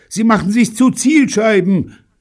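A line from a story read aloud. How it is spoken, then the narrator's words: Shouted. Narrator (German): schrie David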